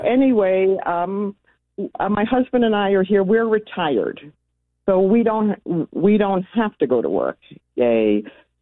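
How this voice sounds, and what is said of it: New York accent. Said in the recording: “I was born and raised in New York, in case you can't tell by the accent”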